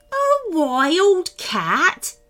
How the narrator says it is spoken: Maximus chuckled

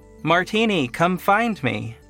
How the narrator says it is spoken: I called out

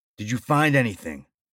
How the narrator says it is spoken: asked firmly

